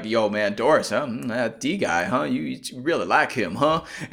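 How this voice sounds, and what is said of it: Exaggerated Southern Texas accent. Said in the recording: “we kept going hard on this like Southern, vaguely Texas accent. I love how we went very hard on that all episode.”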